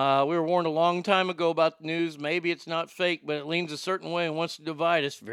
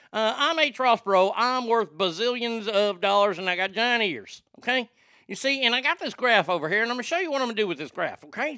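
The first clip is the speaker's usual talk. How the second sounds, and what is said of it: Imitates another person's voice. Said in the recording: “my impersonation of him ... That's the way he talked.”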